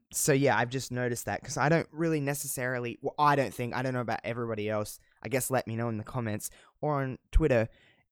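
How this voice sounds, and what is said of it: Mild Australian accent. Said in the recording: “I don't think I have that thick of an Australian accent, but maybe I do ... Do I have a really thick Australian accent? Am I true blue Aussie? I don't think I am. I think it's pretty mild”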